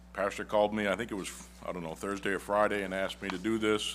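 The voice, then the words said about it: Northern American accent. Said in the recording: “my Yankee accent”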